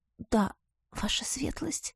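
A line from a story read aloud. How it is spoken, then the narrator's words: Embarrassed whisper. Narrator (Russian): прошептала я, в который раз за ночь покраснев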